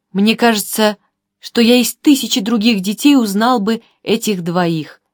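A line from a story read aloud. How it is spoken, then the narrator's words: Whispered to himself. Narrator (Russian): прошептал как бы про себя господин Гулаген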